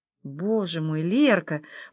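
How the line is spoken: Admiring whisper. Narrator (Russian): прошептала Алла восхищенно

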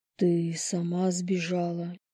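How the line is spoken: Muffled, hollow. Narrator (Russian): Глухо спросил Лис

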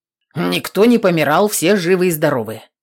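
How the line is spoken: Muttering. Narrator (Russian): пробурчал

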